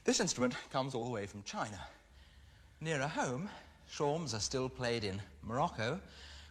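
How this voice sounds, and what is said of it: Out of breath, panting speech. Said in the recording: “I'm rather out of breath.”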